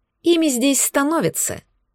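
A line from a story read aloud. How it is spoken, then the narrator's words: Sarcastic remark. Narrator (Russian): язвительно добавила я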